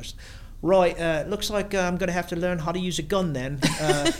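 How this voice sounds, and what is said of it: Exaggerated Dick Van Dyke English accent. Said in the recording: “she doesn't actually sound like this. Everything is Dick Van Dyke. I Dick Van Dyke everything. She has more of like that nice highbrow English accent.”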